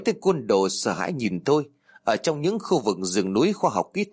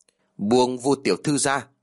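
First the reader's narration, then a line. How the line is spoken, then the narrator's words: Cold repeated command. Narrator (Vietnamese): Tôi lạnh lùng nhắc lại câu nói lần thứ hai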